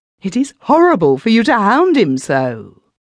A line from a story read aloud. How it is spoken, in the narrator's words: with terror and cried